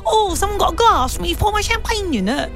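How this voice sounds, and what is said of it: Poor put-on English accent. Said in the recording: “That was not my best English accent”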